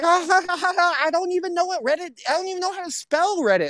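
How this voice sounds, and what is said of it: Imitates another person's voice. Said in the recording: “do a perfect Bobby Lee impression ... It's the voice I got to work on. ... You're not even trying that much, and it's pretty fucking good.”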